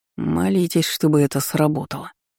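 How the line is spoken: Through gritted teeth. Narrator (Russian): сквозь зубы произнес Джеффри

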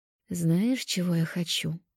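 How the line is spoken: Whispering. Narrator (Russian): прошептала Лера

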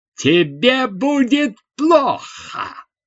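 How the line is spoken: Shouting. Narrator (Russian): закричала

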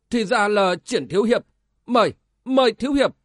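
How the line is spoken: Exclaiming. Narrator (Vietnamese): gã môn hạ đã kêu lên

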